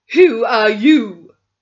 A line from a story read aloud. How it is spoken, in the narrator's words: said Miss Minton furiously